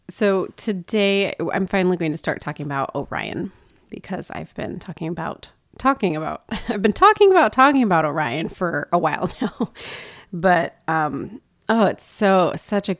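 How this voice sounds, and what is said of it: Slightly weird, tired, sick-sounding voice. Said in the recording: “I am getting over a cold, so I apologize if my voice sounds a little weird ... Even if I'm a little tired”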